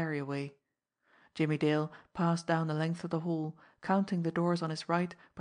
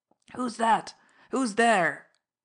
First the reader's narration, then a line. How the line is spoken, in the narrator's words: called out hoarsely